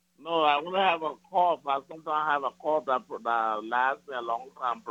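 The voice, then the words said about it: Foreign accent. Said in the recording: “You got an accent.”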